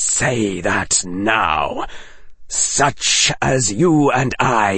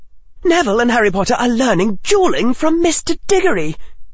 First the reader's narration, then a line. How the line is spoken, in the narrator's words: Hannah blurted